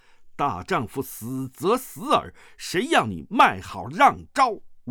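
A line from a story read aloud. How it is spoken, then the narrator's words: Loud shout. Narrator (Chinese): 大声喝道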